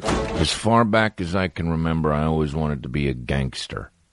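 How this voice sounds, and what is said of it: Pretty good movie-line impression. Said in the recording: “It's a pretty good impression, okay?”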